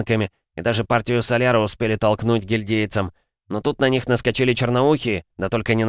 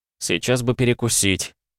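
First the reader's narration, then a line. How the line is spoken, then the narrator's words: Sighing. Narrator (Russian): вздохнул Андрей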